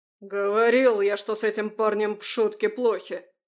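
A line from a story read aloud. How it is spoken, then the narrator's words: Growled. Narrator (Russian): рыкнул топор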